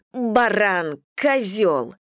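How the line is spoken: Angry yelling. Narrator (Russian): заорала на водителя, который грубо подрезал меня

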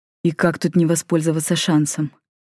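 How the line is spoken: Quiet smirking laugh. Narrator (Russian): тихо усмехнулся Ригель

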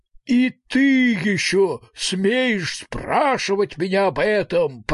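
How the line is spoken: Roar. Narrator (Russian): проревел Друнд Эдвард

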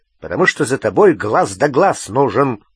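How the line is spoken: Growled. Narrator (Russian): прорычал Грюм

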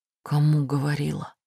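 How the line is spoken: Whispered question. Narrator (Russian): спрашиваю шепотом

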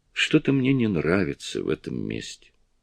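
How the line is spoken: Said softly. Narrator (Russian): Петти сказала мягко

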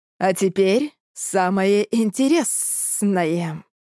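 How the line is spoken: Hiss. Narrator (Russian): прошипел он

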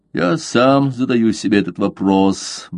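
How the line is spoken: Gloomy. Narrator (Russian): мрачно сказал Дожерон

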